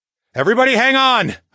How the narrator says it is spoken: I yelled

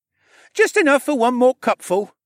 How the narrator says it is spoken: he chirped in his eager voice

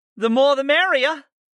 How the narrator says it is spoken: Layla called out to us

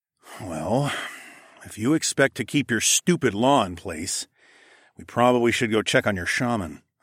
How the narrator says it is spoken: I grumbled

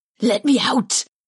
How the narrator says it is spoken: Karth hissed

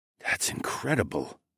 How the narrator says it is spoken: he breathed

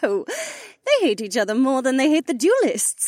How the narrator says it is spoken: she giggled

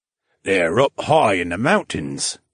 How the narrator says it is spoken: the older man murmured

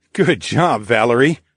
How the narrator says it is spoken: I chuckled

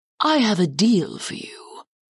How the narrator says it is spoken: Karth said in a cryptic tone

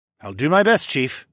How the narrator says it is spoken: said

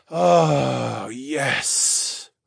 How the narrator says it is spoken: I groaned

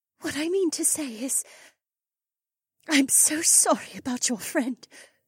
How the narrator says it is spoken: she said with a small sob in the back of her throat

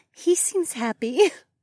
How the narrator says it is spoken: Ravi giggled

